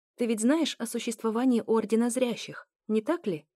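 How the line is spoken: Calm. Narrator (Russian): Спокойно начала я

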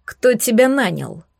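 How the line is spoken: Hedgehog's stern question. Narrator (Russian): строго спросил ежик

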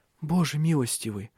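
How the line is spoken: Whispering at night. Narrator (Russian): шептала она по ночам

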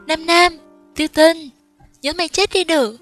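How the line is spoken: Shouting. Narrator (Vietnamese): Tiêu Tinh vừa hét lên

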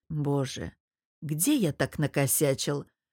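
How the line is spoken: Muttered. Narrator (Russian): пробормотал я

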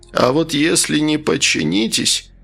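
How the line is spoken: Hoarse interrupting voice. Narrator (Russian): перебил его хриплый голос подельника

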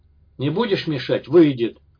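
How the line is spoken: Angry blacksmith's reply. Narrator (Russian): зло ответил кузнец

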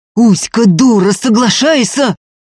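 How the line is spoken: Yelling. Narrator (Russian): орал Ефим

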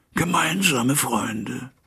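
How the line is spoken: Slightly hoarse echo. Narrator (German): echote Hyde etwas heiser

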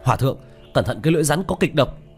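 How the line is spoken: Shout. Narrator (Vietnamese): hét lên

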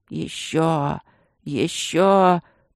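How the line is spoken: Pleading hoarse rasp. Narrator (Russian): просительно хрипел шаман

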